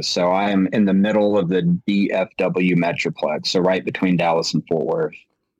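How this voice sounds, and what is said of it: Texan accent. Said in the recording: “you can hear his lovely accent, is coming to us from Texas”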